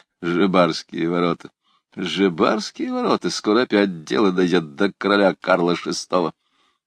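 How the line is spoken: Chuckling, repeating through teeth. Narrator (Russian): он уже начал посмеиваться, повторяя сквозь зубы

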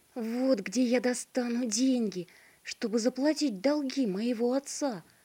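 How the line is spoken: Joyful boy's exclamation. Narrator (Russian): воскликнул обрадованный мальчик

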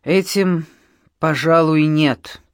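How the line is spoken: Dejected voice. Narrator (Russian): ответил американец упавшим голосом

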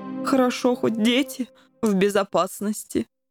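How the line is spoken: Sigh. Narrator (Russian): вздохнул пан Коржик

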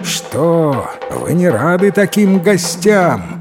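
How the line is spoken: Shouted after them. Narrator (Russian): крикнул им вслед царевич, обернувшись человеком

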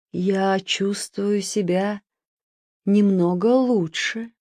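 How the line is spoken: Weak voice, castle lord. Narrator (Russian): хозяин замка промолвил слабым голосом

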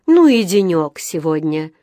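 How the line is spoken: Sigh. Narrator (Russian): вздохнула миссис Браун

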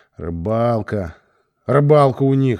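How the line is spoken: Grumbling. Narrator (Russian): ворчал

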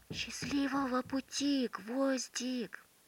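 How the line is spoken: Children whispering. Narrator (Russian): ребята прижались губами к замочной скважине и зашептали

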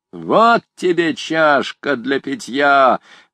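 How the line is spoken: Shout. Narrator (Russian): крикнул какой-то человек

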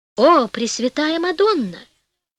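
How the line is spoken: Exclamation. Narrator (Russian): воскликнул король

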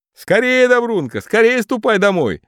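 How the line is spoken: Commanding shout. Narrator (Russian): закричал сентябрь повелительным тоном

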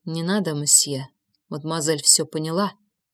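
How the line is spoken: Quiet whisper. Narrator (Russian): тихо прошептал Жозеф

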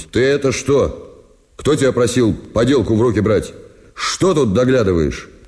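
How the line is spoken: Stern question. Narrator (Russian): Спросил строго, как по его правилу велось

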